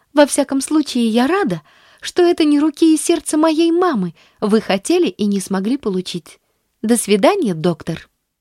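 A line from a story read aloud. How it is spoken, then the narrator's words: Beaming exclamation. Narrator (Russian): воскликнула, просияв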